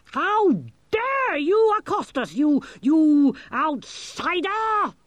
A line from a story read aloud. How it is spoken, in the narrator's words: screamed